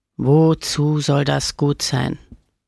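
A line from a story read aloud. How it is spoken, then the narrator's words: Growled. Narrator (German): knurrte Camillo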